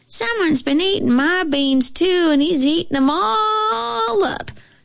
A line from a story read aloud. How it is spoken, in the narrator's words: squeaked the bear cub in his little bitty baby voice